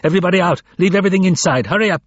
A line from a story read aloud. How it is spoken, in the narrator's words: shouting